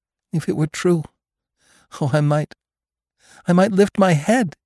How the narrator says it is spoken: she cried

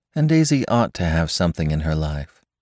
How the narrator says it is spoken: murmured Jordan to me

